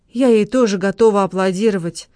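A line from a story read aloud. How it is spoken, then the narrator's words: Trembling voice. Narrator (Russian): дрожащим голосом ответила Лола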